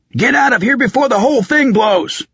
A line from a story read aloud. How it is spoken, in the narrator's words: The wizard yelled